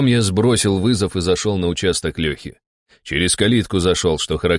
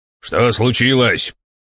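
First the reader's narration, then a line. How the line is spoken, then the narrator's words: Barking. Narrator (Russian): рявкнул я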